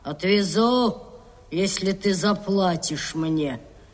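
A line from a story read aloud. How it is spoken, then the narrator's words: Grumble. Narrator (Russian): Капитан проворчал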